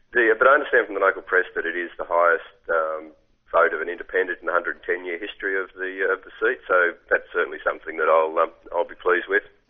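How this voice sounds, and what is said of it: Croaky, hoarse voice. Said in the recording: “excuse my voice, I've just got a bit croaky from standing out in street corners for the last few weeks”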